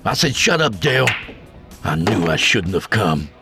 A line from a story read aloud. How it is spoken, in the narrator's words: he grumbled